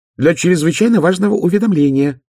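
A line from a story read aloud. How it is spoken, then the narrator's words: Shrill squeal. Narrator (Russian): взвизгнул бесенок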